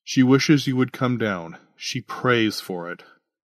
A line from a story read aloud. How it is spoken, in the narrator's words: Augustine sighed